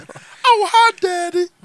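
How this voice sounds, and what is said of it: Imitates a cartoon character's voice. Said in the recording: “I'm just cosplaying Cleveland Jr. ... that's a good impression.”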